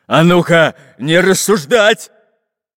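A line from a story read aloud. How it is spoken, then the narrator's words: Barking. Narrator (Russian): рявкнул на него Бульбуль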